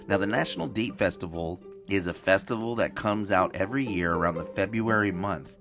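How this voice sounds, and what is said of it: Slightly hoarse voice. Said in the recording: “my voice is a little bit hoarse”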